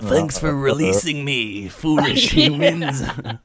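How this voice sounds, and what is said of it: Cartoon villain character voice. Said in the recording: “Frieza from Dragon Ball Z... I can't do a Frieza voice... that's a hard voice”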